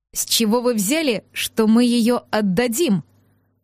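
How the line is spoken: Through gritted teeth. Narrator (Russian): процедил шерх

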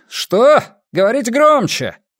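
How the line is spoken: Rough shouting from crowd. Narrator (Russian): грубо закричали в толпе

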